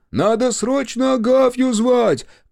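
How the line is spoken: Shouted by a villager. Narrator (Russian): крикнул кто-то из селян

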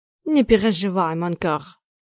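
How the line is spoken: Confident, burred r's. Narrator (Russian): Прокартавил уверенно

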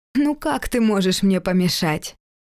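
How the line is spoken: Laughing. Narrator (Russian): Валентин рассмеялся

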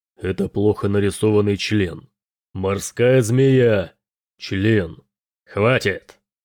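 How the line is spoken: Commanding captain's voice. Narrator (Russian): сказал Келин капитанским голосом

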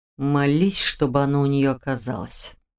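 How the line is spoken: Demon hissing. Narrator (Russian): прошипел демон

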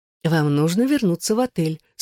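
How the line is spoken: Soft. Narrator (Russian): сказала она мягко

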